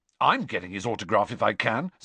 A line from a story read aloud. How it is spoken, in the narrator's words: said Ron